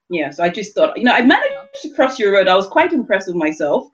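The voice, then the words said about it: London English accent. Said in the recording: “So where's your accent from?" And I go, "London.”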